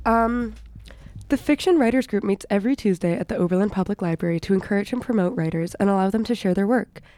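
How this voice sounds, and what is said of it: Serious radio announcer voice. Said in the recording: “Radio voice... You just have to become serious”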